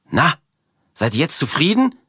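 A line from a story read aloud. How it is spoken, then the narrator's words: Shouting at strangers. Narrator (German): schreit Martha die beiden Fremden an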